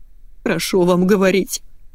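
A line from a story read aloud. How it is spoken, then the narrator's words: Tearful snapping. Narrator (Russian): сквозь слезы огрызнулась дама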